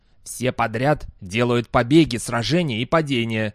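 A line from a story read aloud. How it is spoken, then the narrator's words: Angry. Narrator (Russian): сердито произнес Дастабль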